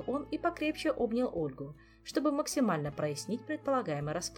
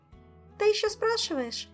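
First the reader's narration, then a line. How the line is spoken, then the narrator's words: Cheerful reply. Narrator (Russian): весело откликнулась Ольга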